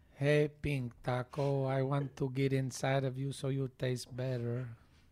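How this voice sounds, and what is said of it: Funny guacamole character voice. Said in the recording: “Can you do your best guacamole voice? ... say it in a funny voice”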